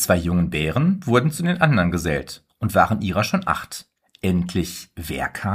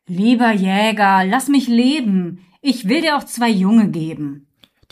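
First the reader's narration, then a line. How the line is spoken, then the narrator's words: Bear calling out. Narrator (German): Darauf kam ein Bär, rief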